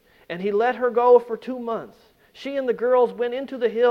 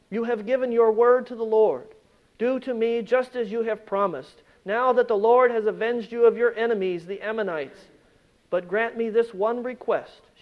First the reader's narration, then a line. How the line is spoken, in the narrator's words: she said